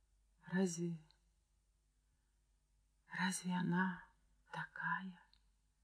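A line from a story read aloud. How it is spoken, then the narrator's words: Barely audible question. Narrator (Russian): еле слышно спросила Ирина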